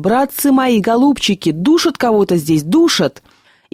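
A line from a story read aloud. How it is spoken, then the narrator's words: Screaming at top of lungs. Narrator (Russian): Машинист благим матом крикнул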